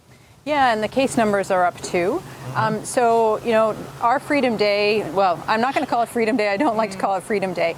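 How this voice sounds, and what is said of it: North American accent. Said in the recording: “She sounds like a North American to me.”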